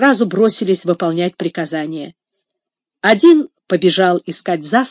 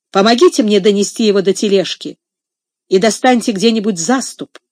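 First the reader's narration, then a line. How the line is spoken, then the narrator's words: Commanding voice. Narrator (Russian): властным голосом сказал Джордж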